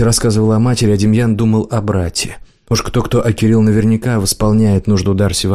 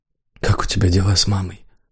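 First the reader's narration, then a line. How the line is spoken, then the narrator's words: Whisper, last word mouthed. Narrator (Russian): прошептал Демьян, последнее слово сказал одними губами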